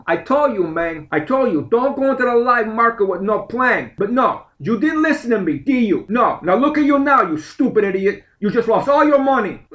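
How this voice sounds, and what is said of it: Tony Montana impression. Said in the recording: “my Tony Montana imitation”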